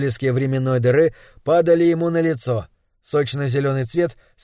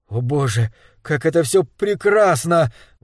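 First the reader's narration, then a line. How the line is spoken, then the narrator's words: Exclaimed. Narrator (Russian): воскликнул он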